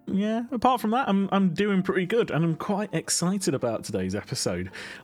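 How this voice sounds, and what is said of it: Slightly rough, off-sounding voice. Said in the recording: “I've got a little bit of a tickly cough, so my voice might sound a little bit off today”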